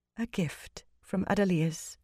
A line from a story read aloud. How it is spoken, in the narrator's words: Vandine murmured